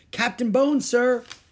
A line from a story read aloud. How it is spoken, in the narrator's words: he shouted